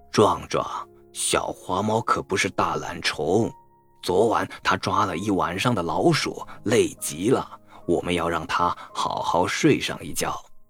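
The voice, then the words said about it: Quiet, low voice. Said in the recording (Chinese): “小声一点儿。外婆低声说”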